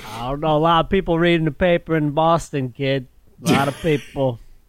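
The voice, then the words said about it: Boston accent. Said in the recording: “I enjoy your Boston accent.”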